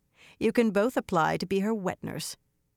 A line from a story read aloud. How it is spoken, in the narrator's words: she said dryly